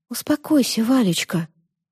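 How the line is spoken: Whisper. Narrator (Russian): прошептала

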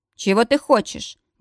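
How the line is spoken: Rude question. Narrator (Russian): грубо осведомился мужчина

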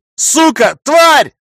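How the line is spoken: Angry yell. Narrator (Russian): заорал я

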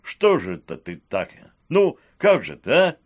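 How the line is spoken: Despairing exclamation. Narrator (Russian): Воскликнув в отчаянии, Сивый

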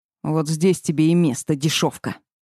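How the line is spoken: Growling from above. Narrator (Russian): Рыкнул он сверху

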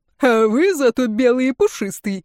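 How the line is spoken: Heated roaring laughter. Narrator (Russian): захохотал распалившийся Иван Савельич

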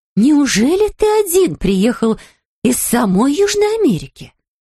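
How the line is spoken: Exclaiming. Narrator (Russian): воскликнула миссис Браун

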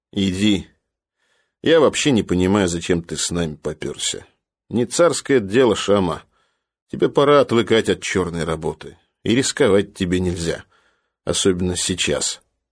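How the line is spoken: Plain. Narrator (Russian): сказал Лезвие

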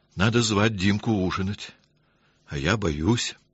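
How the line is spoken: Timid. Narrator (Russian): робко сказала

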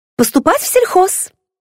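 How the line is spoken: Joyful. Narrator (Russian): радостно сообщила я

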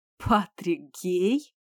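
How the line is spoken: Laughing exclamation. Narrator (Russian): смеясь, воскликнул Итан

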